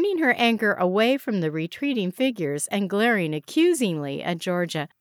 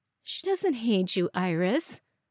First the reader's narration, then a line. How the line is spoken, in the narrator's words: Georgia said gently